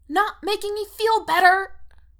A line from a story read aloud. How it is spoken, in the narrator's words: Erica squeaks